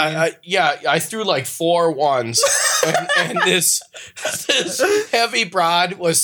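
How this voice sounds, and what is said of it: Usual voice. Nothing is said of it.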